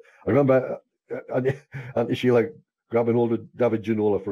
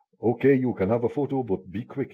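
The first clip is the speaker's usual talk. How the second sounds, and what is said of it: Put-on South of France accent. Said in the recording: “my South of France best accent”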